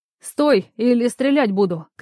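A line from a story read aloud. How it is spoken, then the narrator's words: Shout. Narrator (Russian): крикнула она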